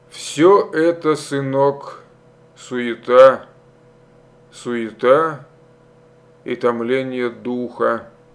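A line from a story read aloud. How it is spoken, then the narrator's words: Slow, measured speech. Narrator (Russian): Стародубцев медленно, раздельно проговорил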